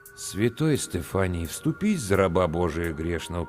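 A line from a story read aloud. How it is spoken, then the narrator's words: Mutter. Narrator (Russian): пробормотал я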